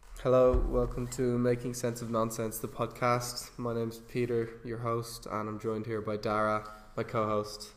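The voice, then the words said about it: Sounds sick, slightly off. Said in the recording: “I'm currently sick, so I might sound a bit off-key. ... You do sound a bit sick, yeah.”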